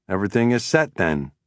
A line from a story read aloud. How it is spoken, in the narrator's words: I said